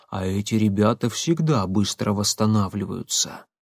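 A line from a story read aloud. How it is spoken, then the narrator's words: Near whisper. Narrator (Russian): Клепцова понизила голос почти до шепота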